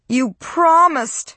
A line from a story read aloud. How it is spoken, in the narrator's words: Josie cried